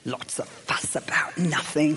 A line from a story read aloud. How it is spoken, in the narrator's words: he hissed